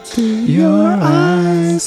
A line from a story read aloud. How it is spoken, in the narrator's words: I cried